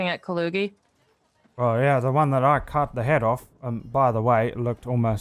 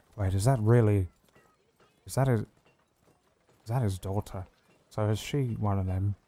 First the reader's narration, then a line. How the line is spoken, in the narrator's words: He leans into Aura and quietly says